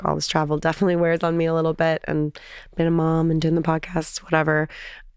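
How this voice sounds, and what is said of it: Sick-sounding, partly lost voice. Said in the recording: “lost my voice. ... You can tell I'm still a little sick.”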